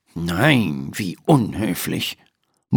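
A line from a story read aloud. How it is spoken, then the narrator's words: Murmured. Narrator (German): murmelt Dr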